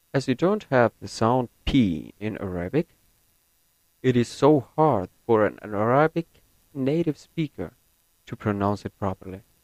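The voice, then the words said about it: American-leaning English accent. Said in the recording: “my accent is more American than British”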